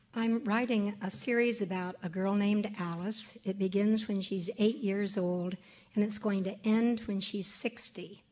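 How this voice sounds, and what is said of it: Hoarse, strained voice. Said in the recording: “I have laryngitis.”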